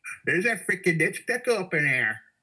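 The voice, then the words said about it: Put-on Vermont accent. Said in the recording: “you have to say that with a Vermont accent. ... Well done.”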